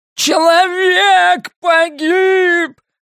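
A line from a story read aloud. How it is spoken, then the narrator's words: Strained yell. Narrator (Russian): надсадно завопил низенький господин в слишком длинной форме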